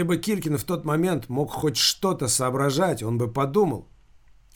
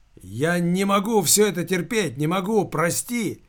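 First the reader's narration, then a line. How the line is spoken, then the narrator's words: Hysterical shout. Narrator (Russian): истерически выкрикнул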